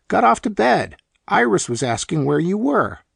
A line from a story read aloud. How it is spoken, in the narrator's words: exclaimed in an easy tone